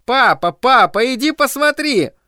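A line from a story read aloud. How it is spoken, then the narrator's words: Shouting. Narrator (Russian): Стефи закричала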